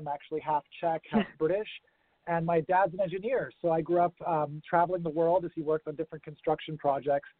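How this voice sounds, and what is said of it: American accent. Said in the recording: “I sound American”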